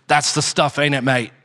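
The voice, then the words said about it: Thick English accent, bad impression. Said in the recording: “with a really thick English accent ... that's my terrible British impression”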